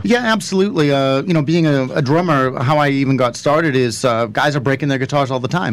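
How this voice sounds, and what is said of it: Slight East Coast American accent. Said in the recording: “I just caught that East Coast accent. ... A little bit. ... I definitely heard the East Coast.”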